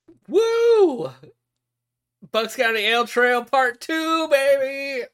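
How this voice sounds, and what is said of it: Excited yelling. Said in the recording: “I don't know why I'm yelling”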